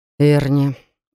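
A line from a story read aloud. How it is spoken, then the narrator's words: Tired. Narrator (Russian): устало начал Даррен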